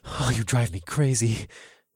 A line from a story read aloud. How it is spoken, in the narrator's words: I murmured